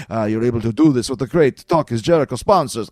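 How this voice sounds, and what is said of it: Vampire voice. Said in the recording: “I'm going to do this in a vampire voice.”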